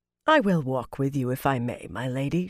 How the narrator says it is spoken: she said calmly

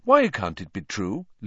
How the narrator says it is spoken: Lupin said calmly, as though they were in class and Hermione had simply spotted a problem in an experiment with Grindelows

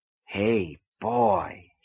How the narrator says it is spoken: he said softly

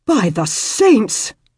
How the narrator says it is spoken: practically bellowed

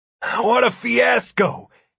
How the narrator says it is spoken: he gasped

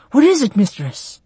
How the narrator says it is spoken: Narayan gasped

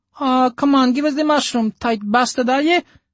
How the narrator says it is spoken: the little girl squealed

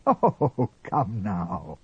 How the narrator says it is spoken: Father Peregrine laughed

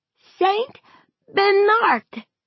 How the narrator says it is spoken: Tad cried

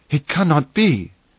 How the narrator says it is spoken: he exclaimed

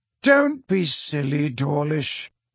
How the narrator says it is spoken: said Dumbledore kindly

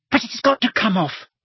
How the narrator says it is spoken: squeaked Hermione

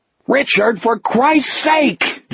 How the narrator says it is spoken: Jack roared

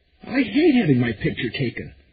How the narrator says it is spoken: Meg cried, with the theatrical anxiety and pleasure which only sub-teenage girls and really bad actresses can manage

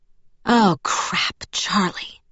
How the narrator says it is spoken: I muttered

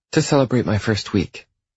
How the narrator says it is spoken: she says quickly

